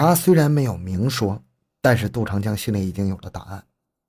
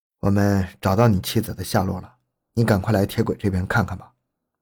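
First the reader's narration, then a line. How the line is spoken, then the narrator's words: Serious, low phone voice. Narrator (Chinese): 电话中民警的声音严肃低沉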